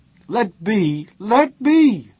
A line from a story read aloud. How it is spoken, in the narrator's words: He screamed aloud